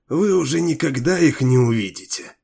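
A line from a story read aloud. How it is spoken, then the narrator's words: Hoarse female voice. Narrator (Russian): ответил хриплый женский голос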